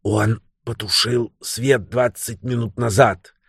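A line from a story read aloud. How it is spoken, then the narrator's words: Hoarse whisper. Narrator (Russian): хриплым шепотом поведал компании Ронни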